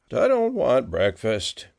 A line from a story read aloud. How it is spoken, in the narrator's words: grumbled